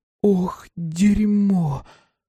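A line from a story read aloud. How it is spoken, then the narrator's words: Breathless exhale. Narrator (Russian): выдохнула Эмми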